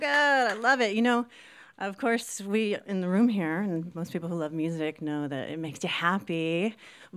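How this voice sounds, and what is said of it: Speaks with an accent. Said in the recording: “it's my accent”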